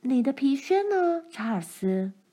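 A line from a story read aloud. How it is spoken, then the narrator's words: Plain. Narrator (Chinese): 她问道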